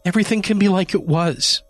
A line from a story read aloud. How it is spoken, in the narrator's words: she pleaded